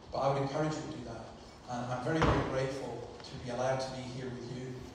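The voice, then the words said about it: Scottish accent. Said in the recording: “I'm sorry about the Scottish accent.”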